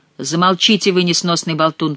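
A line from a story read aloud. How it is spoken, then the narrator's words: Sharp rebuking shout. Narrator (Russian): прикрикнул на шута король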